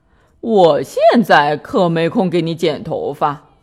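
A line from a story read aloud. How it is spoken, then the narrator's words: Laughing. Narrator (Chinese): 弗瑞德笑着说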